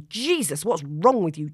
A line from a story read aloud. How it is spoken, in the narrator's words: George says angrily